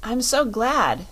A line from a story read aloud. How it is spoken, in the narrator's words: exclaimed Dorothy